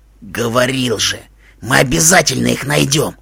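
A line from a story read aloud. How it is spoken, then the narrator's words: Hoarse. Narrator (Russian): хрипло сказал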